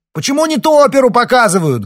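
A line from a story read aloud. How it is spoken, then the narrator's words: Loud bellow across hall. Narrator (Russian): гаркнул он на весь зал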